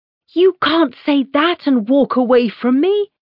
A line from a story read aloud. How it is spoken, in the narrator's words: I shout after her